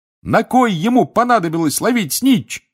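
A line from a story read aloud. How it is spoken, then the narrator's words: Excited shouting. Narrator (Russian): кричал Рон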